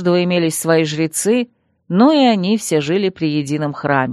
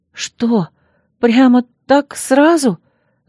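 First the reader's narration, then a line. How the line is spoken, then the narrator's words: Nervous, plaintive. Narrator (Russian): Сглотнув, жалобно посмотрела я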